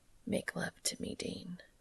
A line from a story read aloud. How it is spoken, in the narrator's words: Cass whispers into his ear